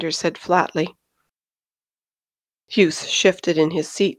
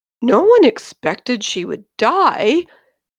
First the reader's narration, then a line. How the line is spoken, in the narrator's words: cried Hughes in genuine anguish